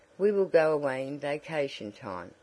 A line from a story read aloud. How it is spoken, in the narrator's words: replied Dorothy